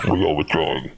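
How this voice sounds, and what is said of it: Deep, muffled alien character voice. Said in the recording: “Probably in a deep, muffled voice. ... my Batarian impression. ... that's pretty good.”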